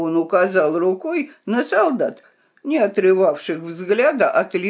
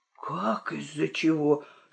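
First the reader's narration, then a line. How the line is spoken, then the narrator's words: Amazed whisper. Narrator (Russian): шепнул изумленный Цинамон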